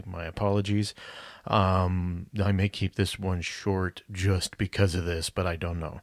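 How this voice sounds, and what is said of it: Hoarse, worn-out raspy voice. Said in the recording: “My voice is deteriorating really big... my voice is toast... I sound a little like a cheese grater was scraped across my larynx”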